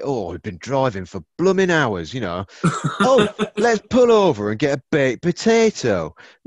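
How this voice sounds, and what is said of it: Put-on Yorkshire accent. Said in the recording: “Is that what that accent was? It's like the Yorkshire ... I'm a Yorkshireman, aren't I? It's my go-to accent ... ripping the piss out of your accent”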